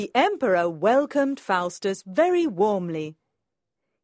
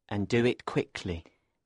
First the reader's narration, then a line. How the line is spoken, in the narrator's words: Benvolio muttered to himself